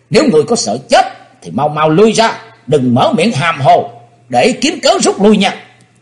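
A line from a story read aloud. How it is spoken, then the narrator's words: Furious shout. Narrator (Vietnamese): Âu Dương Dân Phi nổi trận lôi đình quát lên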